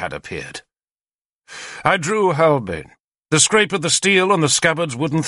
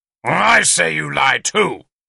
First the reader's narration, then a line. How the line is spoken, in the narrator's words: he growled